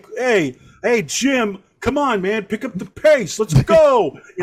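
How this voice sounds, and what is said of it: Put-on New York/Philly dumb-guy accent. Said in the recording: “New York like, accent. ... Dumbass, yeah, like, yeah, kind of, but just like general dumbass, like Philly cheesecake.”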